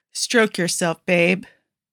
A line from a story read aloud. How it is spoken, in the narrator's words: Malik groans against Guido's soft lips